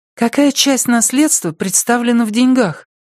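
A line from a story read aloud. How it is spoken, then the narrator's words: Timid question. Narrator (Russian): спросила Порция робко, словно вопрос выходил за рамки приличий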